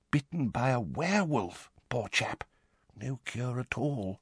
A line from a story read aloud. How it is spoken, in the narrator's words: he said, dropping his voice